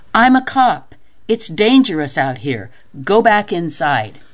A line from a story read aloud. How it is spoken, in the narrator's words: yelled